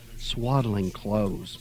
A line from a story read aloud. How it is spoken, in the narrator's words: Mother sighed